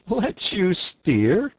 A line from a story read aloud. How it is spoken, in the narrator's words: replied the barge woman, laughing